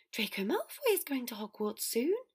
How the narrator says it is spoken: Dobby exclaimed excitedly

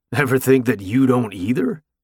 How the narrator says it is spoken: Hud snorted

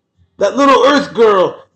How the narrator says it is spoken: Sal's yelling at all the kids

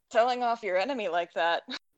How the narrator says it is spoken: laughed

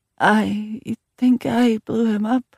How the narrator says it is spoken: Alexandria said in a quavering voice, and tears started to stream down her cheeks again

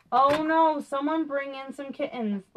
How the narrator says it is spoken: laughed Egg

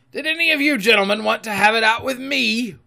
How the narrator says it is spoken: roared Silver

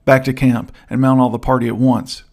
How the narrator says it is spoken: cried the captain

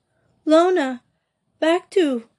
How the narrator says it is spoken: she cried out

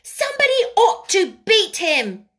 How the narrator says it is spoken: she cried out

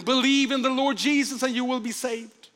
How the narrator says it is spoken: John Harper called out to him

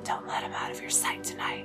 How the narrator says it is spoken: Will whispered to Reggie

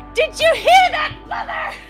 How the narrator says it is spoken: She yells up into the background

